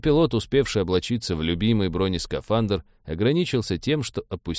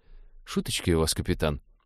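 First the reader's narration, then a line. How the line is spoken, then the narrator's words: Mutter. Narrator (Russian): пробормотал навигатор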